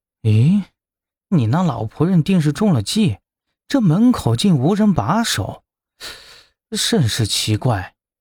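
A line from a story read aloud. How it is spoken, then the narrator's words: Muttering. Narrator (Chinese): 林直跟在后面，嘀咕道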